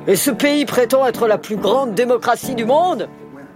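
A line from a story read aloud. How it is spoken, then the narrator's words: Grumbling. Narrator (French): avait grogné durant les débats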